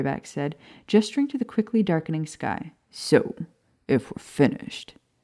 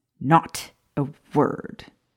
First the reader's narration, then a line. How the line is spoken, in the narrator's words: Professor Higgs sneered